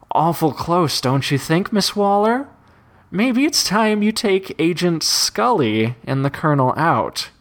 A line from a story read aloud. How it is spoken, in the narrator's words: The Joker's laughter subsided, and he said